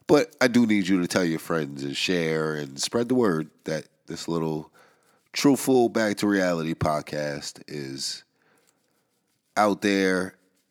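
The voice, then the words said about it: Nasal, congested voice. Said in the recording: “I sound nasally.”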